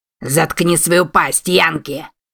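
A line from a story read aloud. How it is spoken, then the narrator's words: Growled. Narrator (Russian): рыкнул кузен Клайда Весси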